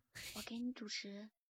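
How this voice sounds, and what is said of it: Speaking very quietly. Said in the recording (Chinese): “他这玩意儿说话这么小声 ... 那么小声？”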